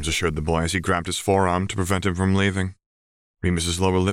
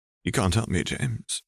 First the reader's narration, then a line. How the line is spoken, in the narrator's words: he choked